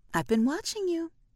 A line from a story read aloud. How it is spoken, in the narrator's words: Effie said, her voice clipped and saccharine